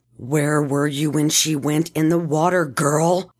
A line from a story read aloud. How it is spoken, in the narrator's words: Dabjila growled